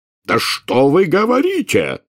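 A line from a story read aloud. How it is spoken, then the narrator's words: Furious bark. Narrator (Russian): в бешенстве рявкнул премьер-министр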